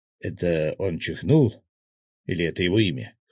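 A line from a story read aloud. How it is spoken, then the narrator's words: Snorting. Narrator (Russian): хмыкнул Свят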